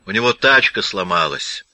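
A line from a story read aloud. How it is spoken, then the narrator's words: Interjecting with a nasty laugh. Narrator (Russian): вставил Уэлли и гнусно хохотнул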